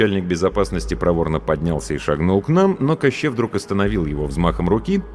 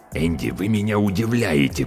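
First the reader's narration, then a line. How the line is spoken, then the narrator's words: Hiss. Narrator (Russian): прошипел он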